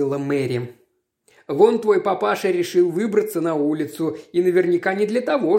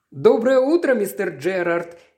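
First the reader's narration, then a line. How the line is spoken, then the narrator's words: Cheerful greeting. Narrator (Russian): весело поздоровалась сестра Хопкинс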